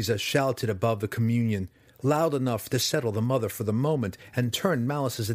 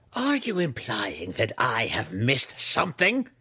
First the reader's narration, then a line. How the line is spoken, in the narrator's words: Malice growled